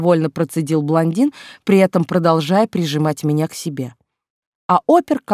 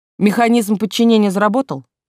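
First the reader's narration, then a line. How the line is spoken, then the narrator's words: Knowing snort. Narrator (Russian): Понимающе хмыкнул Лагин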